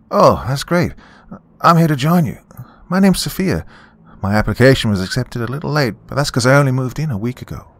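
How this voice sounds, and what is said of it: Lively, bubbly young woman's voice. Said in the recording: “Her voice was contrastingly lively and bubbly.”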